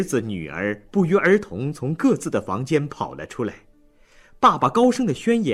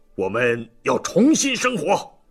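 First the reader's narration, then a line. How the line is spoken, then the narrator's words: Angry shout. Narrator (Chinese): 老纪脸红脖子粗的叫道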